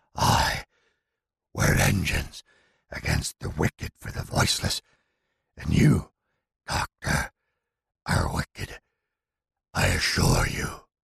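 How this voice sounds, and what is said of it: Deep booming possessed voice. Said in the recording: “The deep voice of Anku booms again from the small woman's mouth.”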